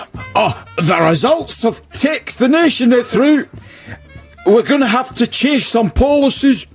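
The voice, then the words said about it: Scottish-accented impression of a politician. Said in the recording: “my impression of Gordon Brown ... he's Scottish, clearly ... that's quite good, isn't it? ... That's pretty good.”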